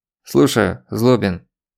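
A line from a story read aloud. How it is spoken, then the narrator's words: Stern official voice. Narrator (Russian): строгим служебным голосом представился он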